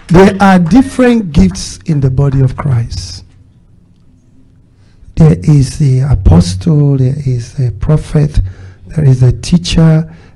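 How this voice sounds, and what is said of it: Speaks with a foreign accent. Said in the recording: “when I first came to America, my accent was a problem when people are trying to listen to me ... It makes some people listen harder. It makes some people say, what did you say?”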